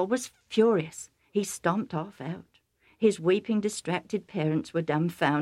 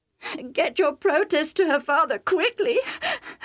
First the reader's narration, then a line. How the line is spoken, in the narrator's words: Rebecca sobbed